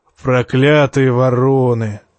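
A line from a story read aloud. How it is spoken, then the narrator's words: Affectionate grumble. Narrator (Russian): как-то даже ласково проворчал Тормунд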